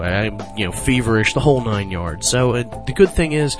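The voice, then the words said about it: Slightly sick voice. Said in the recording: “My voice sounds a lot better from what I'm told today. It actually sounds like I'm just a little bit sick”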